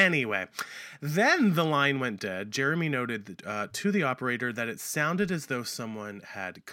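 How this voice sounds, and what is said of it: Usual voice. Nothing is said of it.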